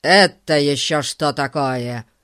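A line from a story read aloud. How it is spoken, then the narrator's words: Loud question. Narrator (Russian): спросил мистер Гун так громко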